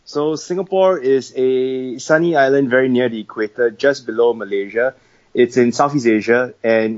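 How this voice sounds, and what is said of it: Odd Singaporean English accent. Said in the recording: “where is that dude from? I don't know that accent ... I have a very, very odd accent. ... someone thought I was from South Africa”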